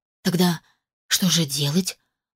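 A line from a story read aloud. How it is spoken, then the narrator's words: Bewildered breathless exhale. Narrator (Russian): выдохнула растерянно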